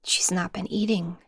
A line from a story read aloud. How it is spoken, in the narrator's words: Zam whispered to Volta